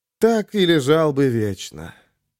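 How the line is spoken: Lazy, contented dreaming. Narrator (Russian): зажмурившись, словно обожравшийся сметаной кот, лениво мечтал Ярик

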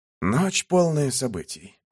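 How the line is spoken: Sighing reply. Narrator (Russian): ответил бог и вздохнул

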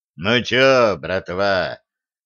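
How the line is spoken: Hoarse drunken rasp. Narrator (Russian): просипел пропитым, хриплым голосом Беттина

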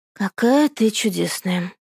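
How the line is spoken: Mumbled. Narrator (Russian): Бормочет она

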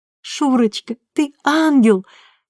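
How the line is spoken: Sobbing. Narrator (Russian): всхлипывала Татьяна

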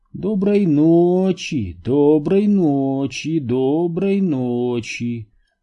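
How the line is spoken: Purring. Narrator (Russian): промурлыкал Хендер

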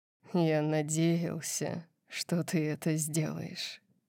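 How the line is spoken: Quiet voice. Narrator (Russian): сказал он тихим голосом

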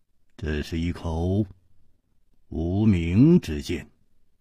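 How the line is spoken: Slow, after long silence. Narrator (Chinese): 楚留香沉默了很久，才缓缓地说

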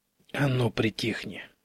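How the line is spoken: Hiss. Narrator (Russian): зашипел на него Антон

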